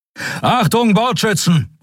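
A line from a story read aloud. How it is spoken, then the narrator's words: Called out. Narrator (German): rief er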